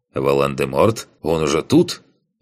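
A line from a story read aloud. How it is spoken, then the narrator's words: Snorting chuckle. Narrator (Russian): Хмыкнул я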